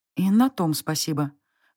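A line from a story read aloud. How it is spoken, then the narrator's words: Exhaled. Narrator (Russian): выдохнула я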